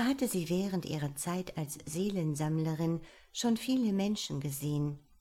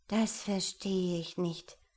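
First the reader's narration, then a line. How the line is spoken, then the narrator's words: Murmured. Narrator (German): murmelte Marafella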